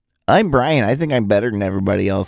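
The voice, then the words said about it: Impression of the host. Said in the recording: “Do an impression of me.”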